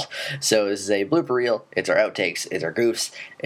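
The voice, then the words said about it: Rough, sick-sounding voice. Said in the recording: “I'm still a little bit getting over a cold ... if you're wondering why I sound so terrible.”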